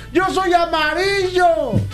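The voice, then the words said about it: Shouting in a joke voice. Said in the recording (Spanish): “¿por qué gritas?”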